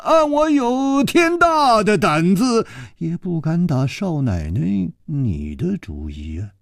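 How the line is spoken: Sighing. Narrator (Chinese): 楚留香叹了一口气说

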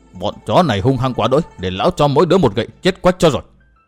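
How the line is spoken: Angry muttering old man. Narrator (Vietnamese): tức mình lão lẩm bẩm

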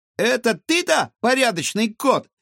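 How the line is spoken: Shout. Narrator (Russian): крикнул Гаврош

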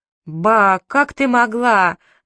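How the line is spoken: Roaring together. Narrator (Russian): взревели мы

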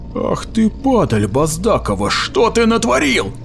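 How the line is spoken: Sudden yell. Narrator (Russian): заорал вдруг Меген

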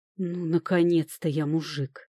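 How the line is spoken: Satisfied groan. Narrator (Russian): довольно простонал Люк

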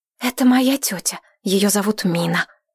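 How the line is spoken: Whispered female speech. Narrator (Russian): шепотом сказала Зайнеп

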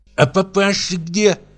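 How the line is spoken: Lisping question. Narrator (Russian): спросила она шепелявя

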